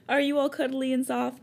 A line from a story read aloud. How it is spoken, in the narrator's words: He asked you and chuckled